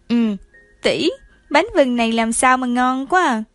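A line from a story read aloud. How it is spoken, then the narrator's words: Smiling, mouth full. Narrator (Vietnamese): Doraemon vừa ăn bánh vừng vừa nhìn Phù Giao mỉm cười, miệng dính đầy vừng nói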